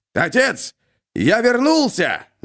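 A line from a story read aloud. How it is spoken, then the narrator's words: Shouting. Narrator (Russian): закричал он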